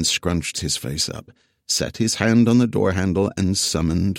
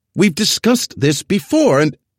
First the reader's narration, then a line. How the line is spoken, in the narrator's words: Joey piped up from behind Evan